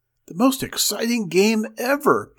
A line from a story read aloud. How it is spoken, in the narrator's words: gasped Mink, pink-faced